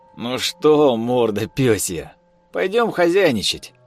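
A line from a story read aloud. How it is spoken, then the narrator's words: Cheerful. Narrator (Russian): радостно сказал Артём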